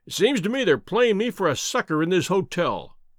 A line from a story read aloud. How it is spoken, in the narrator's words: cried